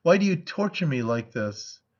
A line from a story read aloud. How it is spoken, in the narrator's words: she cried